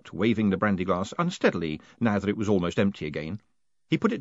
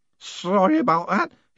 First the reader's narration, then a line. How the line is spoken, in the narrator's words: he slurred